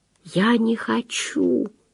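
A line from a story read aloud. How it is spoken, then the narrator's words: Whisper. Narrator (Russian): прошептала мышка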